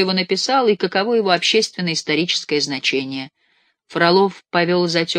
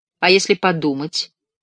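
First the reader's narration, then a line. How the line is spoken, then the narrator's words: Plain. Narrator (Russian): сказал учитель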